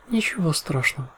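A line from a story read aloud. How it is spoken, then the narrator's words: Calm. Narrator (Russian): спокойно кивнула Луна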